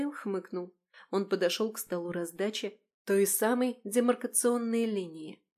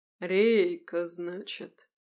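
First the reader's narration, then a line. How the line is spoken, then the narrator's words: Drawn-out drawl. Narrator (Russian): протянул он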